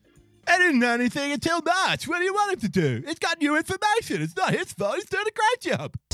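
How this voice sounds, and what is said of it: Partisan activist character voice. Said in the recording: “I'm going to keep doing that voice ... That voice is the partisan activist voice. That's my new partisan guy voice.”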